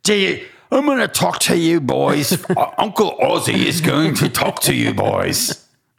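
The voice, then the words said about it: Deliberately bad imitated British accent. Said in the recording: “that accent was really bad too”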